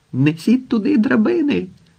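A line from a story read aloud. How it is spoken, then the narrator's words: Prince's shouted order. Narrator (Ukrainian): вигукнув князь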